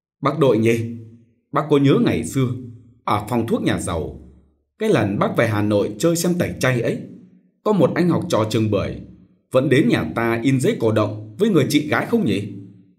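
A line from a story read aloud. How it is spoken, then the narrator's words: Laughing. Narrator (Vietnamese): anh bật cười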